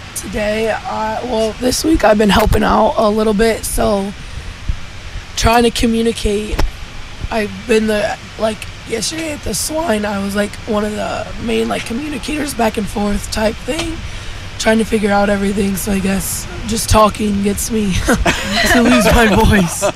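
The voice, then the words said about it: Squeaky, strained voice. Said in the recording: “lose your voice ... Sounds a little squeaky this morning, too ... talk a lot and project my voice maybe a little too much”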